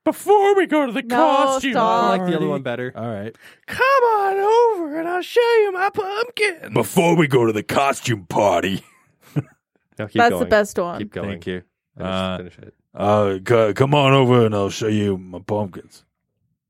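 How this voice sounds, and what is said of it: Weird put-on character voice. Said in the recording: “Weird voice I chose for that.”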